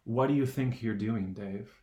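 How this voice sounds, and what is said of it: Cold, creepy computer voice. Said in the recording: “HAL goes ... just this like cold, creepy voice.”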